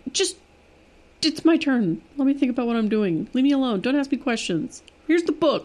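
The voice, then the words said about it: Doofy imitation of another person's voice. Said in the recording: “a better impersonation ... You didn't quite make me sound so doofy ... that's my go-to. I like the doofy.”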